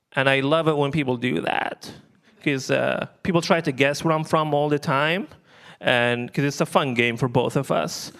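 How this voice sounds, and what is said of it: Libyan accent in English. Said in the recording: “you have an accent. Where are you from? ... I'm from Libya originally”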